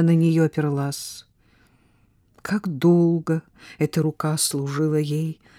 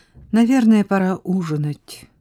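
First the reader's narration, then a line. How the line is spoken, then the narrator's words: Plain. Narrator (Russian): сказала она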